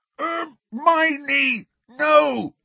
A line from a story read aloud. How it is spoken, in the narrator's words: shouted Ron through his gag